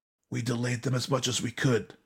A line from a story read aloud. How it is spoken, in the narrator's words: the Hiruma scout rasped